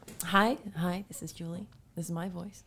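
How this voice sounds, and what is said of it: Announcer-like radio voice. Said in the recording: “This is my radio voice. ... That's a pretty good one. ... You can advertise something with that.”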